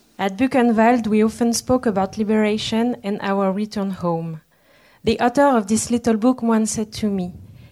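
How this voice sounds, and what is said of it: Non-native accent reading English. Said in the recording (French): “Désolée pour mon accent.”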